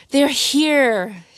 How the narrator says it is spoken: she said into the phone, sobbing again

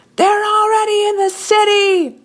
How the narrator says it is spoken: a man screamed from a nearby rooftop

